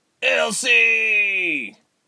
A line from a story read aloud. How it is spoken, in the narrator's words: Tyke screamed